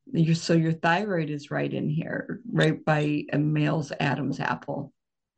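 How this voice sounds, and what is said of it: Unusually deep voice. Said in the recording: “You probably can hear my voice. I've got a deep voice. I've got a nodule.”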